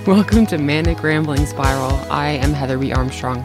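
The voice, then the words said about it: Husky, froggy morning voice. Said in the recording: “Frog just popped out of my throat. ... lovely, lovely, lovely morning, sexy voice.”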